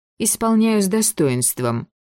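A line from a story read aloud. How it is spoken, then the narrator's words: Grim smirk. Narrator (Russian): мрачно усмехнулась бывшая Скавронская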